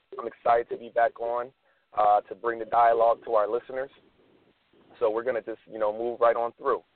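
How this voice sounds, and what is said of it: Hoarse, strained voice. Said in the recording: “my voice is a little compromised today. I lost my voice”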